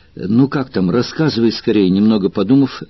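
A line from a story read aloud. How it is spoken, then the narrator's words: Plain question. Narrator (Russian): спросил Спартак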